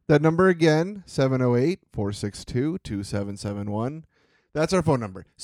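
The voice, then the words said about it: Announcer-style commercial voice. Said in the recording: “in my commercial voice”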